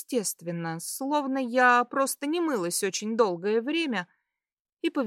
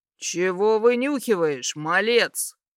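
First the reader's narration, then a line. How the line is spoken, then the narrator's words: Growl from above. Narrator (Russian): Прорычали над головой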